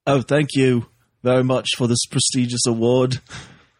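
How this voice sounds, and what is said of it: Put-on British accent impression. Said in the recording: “there are different kinds of British accents ... I'm not going to impersonate Andrew Lincoln anymore.”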